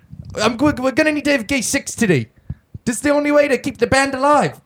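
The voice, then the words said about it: Put-on Australian accent. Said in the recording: “You sound more like fucking Flight of the Conchords. ... You sound like their manager. No, you sound Australian now.”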